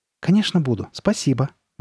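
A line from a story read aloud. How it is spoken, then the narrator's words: Exclamation. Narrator (Russian): воскликнула Карли Бет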